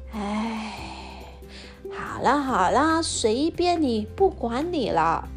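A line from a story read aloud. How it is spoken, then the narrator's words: Resigned sigh. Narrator (Chinese): 妈妈叹了一口气说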